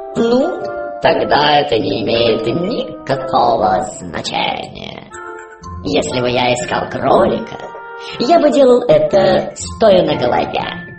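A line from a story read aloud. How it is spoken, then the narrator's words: Purring cat. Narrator (Russian): мурлыкнул кот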